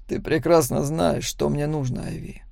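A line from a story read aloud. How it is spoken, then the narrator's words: Quiet. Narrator (Russian): тихо произнес Макс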